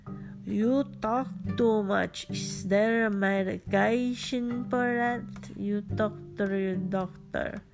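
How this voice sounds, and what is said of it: Imitated Filipino-accented English. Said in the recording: “my dad has an accent ... I'm trying my best to make a Filipino accent”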